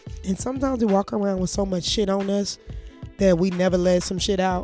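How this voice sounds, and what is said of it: Hoarse, congested voice. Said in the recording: “my voice is going hoarse, y'all. It's going in and out ... That shit got me so congested ... I don't sound good”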